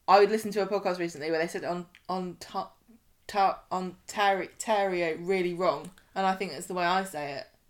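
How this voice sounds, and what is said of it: English accent. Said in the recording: “I'm saying it with an English accent”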